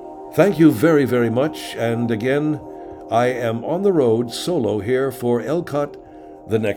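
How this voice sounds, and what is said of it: Usual voice. Nothing is said of it.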